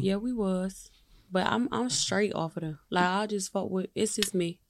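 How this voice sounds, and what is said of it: East Coast accent, slightly Southern. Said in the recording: “That's that East Coast shit. Your accent getting a little southern, but that East Coast up in you.”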